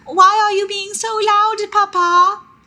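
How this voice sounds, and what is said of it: British child's voice. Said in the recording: “That's my British baby voice.”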